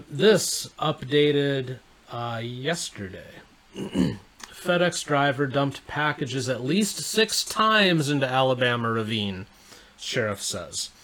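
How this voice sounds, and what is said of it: Strained, fading voice. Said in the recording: “I'm losing my voice just a little bit”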